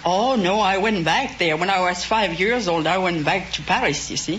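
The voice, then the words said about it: French accent. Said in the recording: “judging from your accent, you must have remained in France ... You just didn't get an accent from spending 2 weeks in France.”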